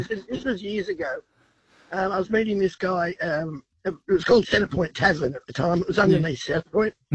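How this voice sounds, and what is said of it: Congested voice from a cold. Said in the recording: “sorry about the voice. I've got a cold.”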